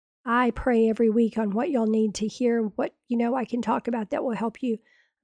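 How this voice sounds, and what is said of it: Damaged, poor-sounding voice. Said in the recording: “my voice is so bad. I suspect that I have polyps or something”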